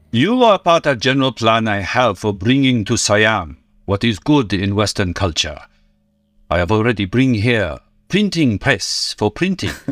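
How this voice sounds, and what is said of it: Quasi-Asian accent, slightly Japanese. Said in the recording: “your first initial take on Quan Chi with the Asian accent ... Kind of quasi-Asian, a little bit Japanese.”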